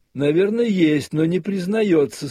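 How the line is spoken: Speech then loud laughter. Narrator (Russian): сказал Катавасов и громко захохотал

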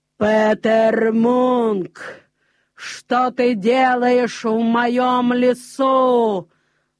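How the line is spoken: Giant's sudden thunderous voice. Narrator (Russian): вдруг сказал великан громовым голосом

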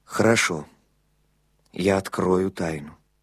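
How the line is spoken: Muffled, hollow voice. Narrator (Russian): глухо сказал

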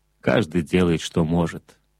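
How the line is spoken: Plain. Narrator (Russian): ответил Монтек

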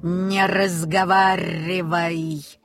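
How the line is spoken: Hoarse croak. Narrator (Russian): хрипло каркнул Фумли-Друмли Нильсу в самое ухо

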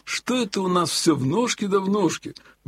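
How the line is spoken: Sudden grumble. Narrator (Russian): вдруг пробурчал Елагин

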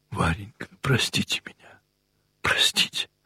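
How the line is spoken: Whisper. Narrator (Russian): прошептала Кити

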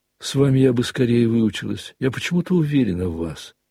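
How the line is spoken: Plain. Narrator (Russian): сказала она ему

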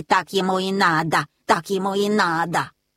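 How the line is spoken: Geese hissing in ear. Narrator (Russian): Гуси шипели ему в ухо

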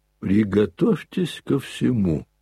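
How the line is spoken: Clipped, stressing each syllable. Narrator (Russian): отчеканил, ударяя по каждому слогу доктор

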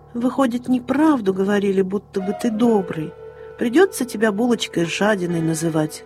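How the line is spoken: Sad tiger cub. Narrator (Russian): грустно сказал тигренок Полосатик

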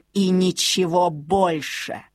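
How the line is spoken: Withering contempt. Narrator (Russian): спросила она убийственно презрительным тоном

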